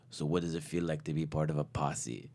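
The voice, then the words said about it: Put-on foreign accent. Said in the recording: “I don't know why I gave him that accent, because that's not what they sound like either”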